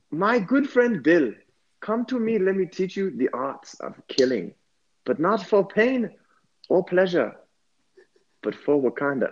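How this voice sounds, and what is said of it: Put-on Wakandan accent. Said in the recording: “that's a good Wakandan accent.”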